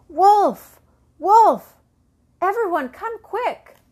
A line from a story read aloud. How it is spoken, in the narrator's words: the boy's cries